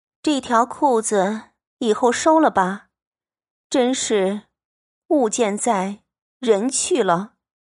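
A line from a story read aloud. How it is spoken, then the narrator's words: Sighing. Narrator (Chinese): 秋纹 因叹道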